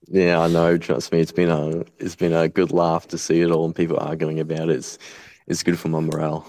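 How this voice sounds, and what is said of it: Very thick Australian accent. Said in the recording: “the single most fucking Aussie thing in the world ... the thickest Aussie accent in the world”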